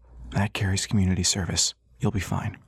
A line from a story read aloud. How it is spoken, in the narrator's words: The defense lawyer whispered